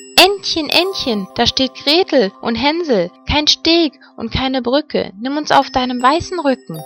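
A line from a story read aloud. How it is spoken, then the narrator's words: Called out. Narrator (German): Da rief sie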